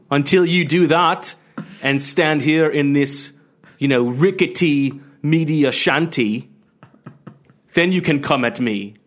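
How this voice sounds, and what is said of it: Put-on British accent. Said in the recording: “I've got a bad accent, have you ever done a British accent for an entire show?”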